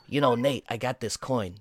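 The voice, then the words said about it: Weird put-on New York accent. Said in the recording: “the worst, like, New York accent ... the worst, like, weird New York accent ... sounds like Christopher Walken”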